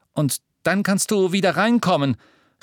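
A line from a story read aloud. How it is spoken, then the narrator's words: Calling after someone. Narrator (German): rief er ihr nach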